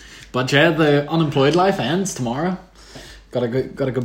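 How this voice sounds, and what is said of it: Usual voice. Nothing is said of it.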